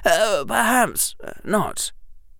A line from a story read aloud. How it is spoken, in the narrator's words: Harry said quietly